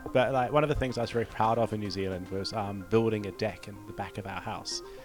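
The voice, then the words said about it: New Zealand accent. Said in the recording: “your Kiwi accent”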